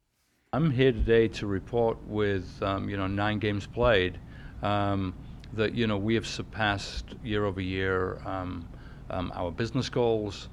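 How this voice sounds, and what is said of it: English accent. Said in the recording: “he's from England, so his accent makes him sound important too”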